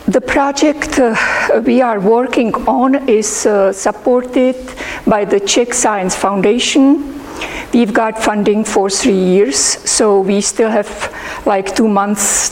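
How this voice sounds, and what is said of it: Hoarse, sore-throated voice. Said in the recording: “I've got a sore throat, so I am not very understandable probably”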